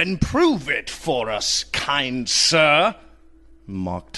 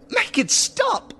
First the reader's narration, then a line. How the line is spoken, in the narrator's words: begged Lady Appleby